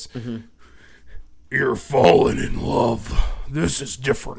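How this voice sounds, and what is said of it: Put-on different voice. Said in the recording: “I'm gonna do this in a different voice.”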